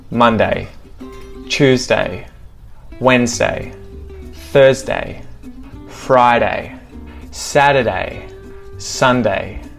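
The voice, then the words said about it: Australian accent. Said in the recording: “how to pronounce the different weekdays in an Australian accent.”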